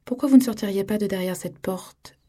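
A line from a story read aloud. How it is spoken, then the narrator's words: Said calmly. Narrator (French): dit-il calmement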